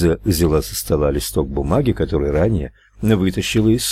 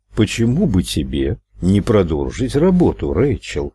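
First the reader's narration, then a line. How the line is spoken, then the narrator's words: Plain. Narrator (Russian): спросил Ральф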